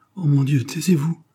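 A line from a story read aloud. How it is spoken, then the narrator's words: Soft exclamation. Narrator (French): s'écria doucement Pierrette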